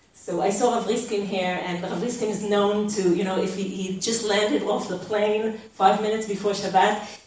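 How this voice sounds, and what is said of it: Israeli accent in English. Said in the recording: “I was born in Israel ... you have to pay the price for my accent and lack of vocabulary when I stumble on the words”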